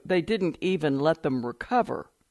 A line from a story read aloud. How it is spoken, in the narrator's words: Gia Calero said